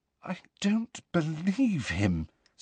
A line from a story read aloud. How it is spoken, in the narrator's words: said Hermione in a very unsteady voice